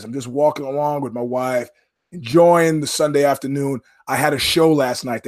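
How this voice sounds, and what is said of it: Hoarse voice. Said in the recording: “my voice is hoarse”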